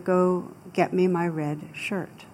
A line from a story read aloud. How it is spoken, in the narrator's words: the captain very calmly said to the soldier